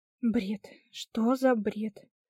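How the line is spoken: Angry whisper into plate. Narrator (Russian): Прошептала в тарелку, кроша в сердцах булочку

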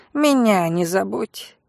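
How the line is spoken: Snorting. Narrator (Russian): фыркнул Лин

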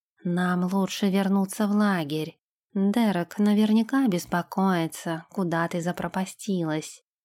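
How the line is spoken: Quiet. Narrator (Russian): тихо сказал он

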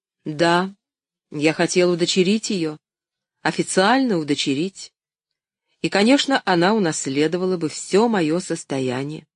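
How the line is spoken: Restrained, forced calm. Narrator (Russian): он сдержался и, как мог, спокойно продолжал

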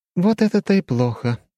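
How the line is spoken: Sigh. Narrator (Russian): вздохнула она

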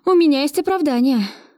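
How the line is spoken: With deep sigh. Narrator (Russian): произнесла я, глубоко вздохнув

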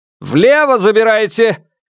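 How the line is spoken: Shouted. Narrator (Russian): крикнул Алексей

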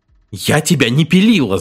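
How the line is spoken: Shout. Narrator (Russian): закричала жена

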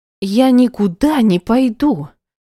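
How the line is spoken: Tearful shouting. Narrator (Russian): закричала Света со слезами в глазах

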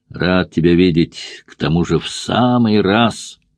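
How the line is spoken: Giant sighing. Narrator (Russian): вздохнул великан

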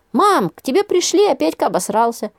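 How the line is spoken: Gleeful blurt. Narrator (Russian): Радостно выдал он

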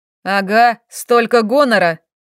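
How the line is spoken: Shout from behind. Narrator (Russian): кто-то позади меня крикнул

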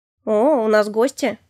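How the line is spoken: Husband's snort. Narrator (Russian): хмыкнул муж

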